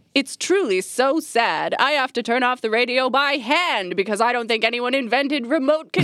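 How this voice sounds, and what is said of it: Usual voice. Nothing is said of it.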